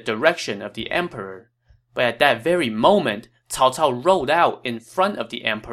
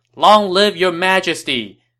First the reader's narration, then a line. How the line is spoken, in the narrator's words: they all shouted